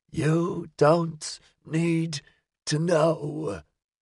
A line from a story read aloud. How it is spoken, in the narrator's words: In rasps, the child answered